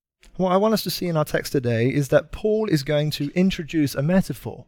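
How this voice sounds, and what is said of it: British accent. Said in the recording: “I don't know if you can tell from my accent where I'm from. I'm from uh, Britain.”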